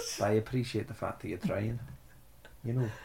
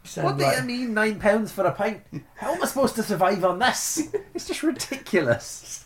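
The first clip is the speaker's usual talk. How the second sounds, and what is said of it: Put-on Scottish accent. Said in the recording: “There's me butchering the Scottish accent and there's you nailing it ... that was shockingly bad”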